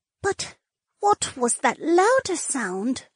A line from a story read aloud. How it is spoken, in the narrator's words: Josephine whispered